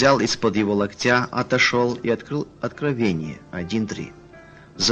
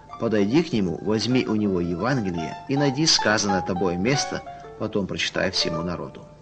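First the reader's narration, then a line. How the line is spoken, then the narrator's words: Whisper. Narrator (Russian): как будто кто-то шепнул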